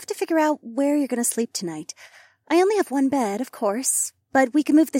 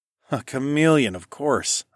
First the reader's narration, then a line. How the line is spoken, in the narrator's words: I sighed